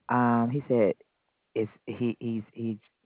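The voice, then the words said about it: Stuttering speech. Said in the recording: “I'm stuttering.”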